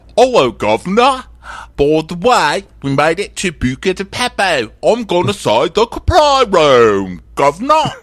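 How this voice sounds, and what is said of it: Mock British accent imitating Dorit. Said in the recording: “Which is about what my Dorit accent sounds like on certain days ... not fucking Act One of My Fair Lady ... making fun of Dorit's accent”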